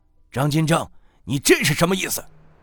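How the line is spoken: Blunt shout. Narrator (Chinese): 袁经理直接喊道

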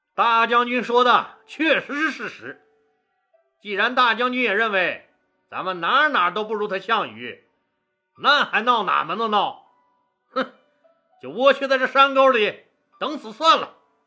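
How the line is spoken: Loud. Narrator (Chinese): 就大声说道

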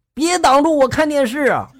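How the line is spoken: Loud bellow. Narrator (Chinese): 我大吼了一句

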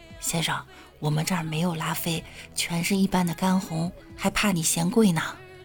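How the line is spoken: Quiet. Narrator (Chinese): 服务生小声说

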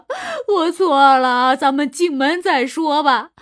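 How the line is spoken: Man pleading desperately. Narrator (Chinese): 男人被关在门外，苦苦哀求媳妇儿说

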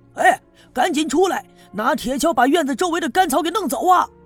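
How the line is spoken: Shouting. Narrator (Chinese): 赵村长冲着那些人喊

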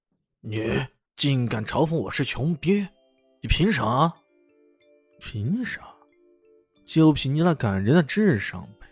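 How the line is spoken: Furious roar. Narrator (Chinese): 暴发户脸上顿时变得绛红，冲着李炫怒吼道

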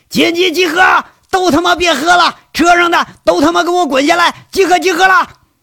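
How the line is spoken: Hoarse, cracked shouting. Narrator (Chinese): 杨伟那破锣嗓子又是一嗓子开喊

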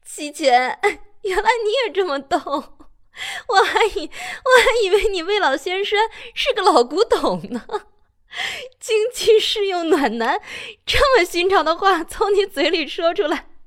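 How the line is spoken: Speaking while laughing helplessly. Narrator (Chinese): 苏仙会笑抽了……一边说

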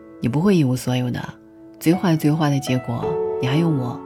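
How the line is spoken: Smiling. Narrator (Chinese): 女朋友笑着说

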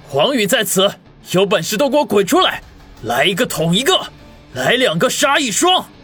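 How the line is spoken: Loud roar. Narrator (Chinese): 他一面大吼

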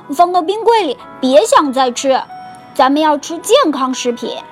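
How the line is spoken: Shouting. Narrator (Chinese): 小熊哥哥喊道

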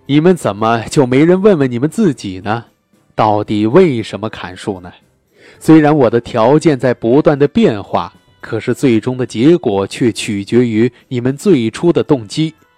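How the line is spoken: Old professor, serious. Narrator (Chinese): 老教授终于收起了微笑，说道

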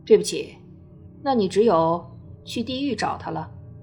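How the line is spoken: Cold. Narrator (Chinese): 那人冷冷地说道

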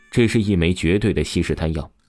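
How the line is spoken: Sneering. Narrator (Chinese): 王峰冷笑了起来，便是说道

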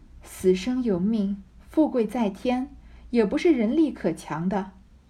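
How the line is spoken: Sighing. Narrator (Chinese): 黛玉叹道

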